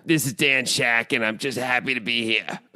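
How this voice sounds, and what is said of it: Imitates another person's voice. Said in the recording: “Dan Shack impersonations ... That's not bad. ... It sounded horrible to me.”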